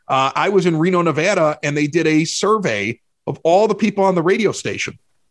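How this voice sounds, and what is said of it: Regional accent that sounds angry. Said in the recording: “you sound like Joe Pesci when you get upset ... there are a lot of people that find our accent to be very frightening when we get angry ... I sounded angry all the time on the air because of my accent ... Even when I'm happy, I sound angry”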